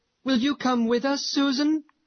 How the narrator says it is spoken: cried several little girls

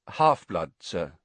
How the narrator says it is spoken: said Riddle

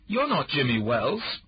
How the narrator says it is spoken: said sharply

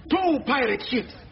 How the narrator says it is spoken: the lookout screams

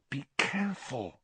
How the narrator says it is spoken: hissed Hermione

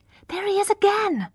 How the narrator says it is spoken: cried Is Hewitt, a pale girl

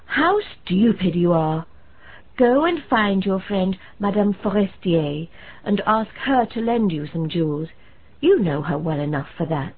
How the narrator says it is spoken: her husband exclaimed

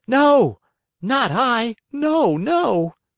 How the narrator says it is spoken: cried Pinocchio, sobbing bitterly

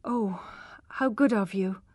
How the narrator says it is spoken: murmured Tess with a heavy heart

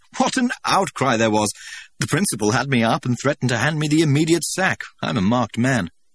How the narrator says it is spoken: he laughed again

